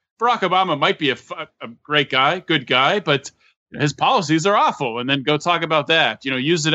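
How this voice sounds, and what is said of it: Usual voice. Nothing is said of it.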